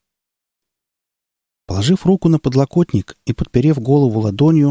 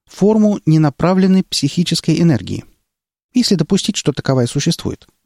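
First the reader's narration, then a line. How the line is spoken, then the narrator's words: Quick clarification. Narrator (Russian): быстро уточнила она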